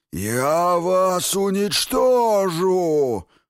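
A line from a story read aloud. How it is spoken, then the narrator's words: Howling. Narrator (Russian): взвыла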